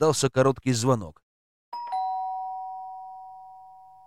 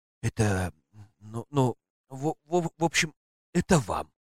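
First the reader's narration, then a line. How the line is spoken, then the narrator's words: Forced out haltingly. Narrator (Russian): Выдавил, наконец, нежданный гость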